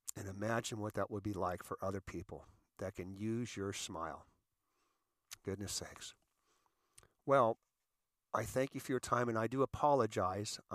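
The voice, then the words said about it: Crackly, recovering voice. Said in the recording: “My voice is a little crackly ... I'm still recovering. I'm about 80% there ... Mr. COVID”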